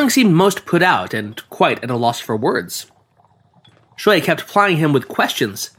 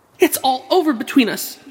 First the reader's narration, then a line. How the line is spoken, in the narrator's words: she cried